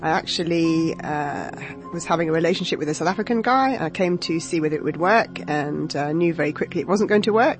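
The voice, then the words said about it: London English accent. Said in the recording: “I came to this country in 2004 from London, as you might be able to tell from my accent.”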